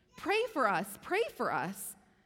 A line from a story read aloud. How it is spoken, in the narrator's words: the people start pleading to him